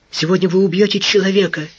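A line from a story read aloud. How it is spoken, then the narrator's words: Frightened whisper. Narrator (Russian): испуганно прошептала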